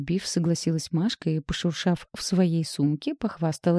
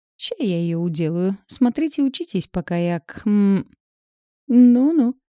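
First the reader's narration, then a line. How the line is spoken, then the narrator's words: Giggling. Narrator (Russian): Хихикнула Света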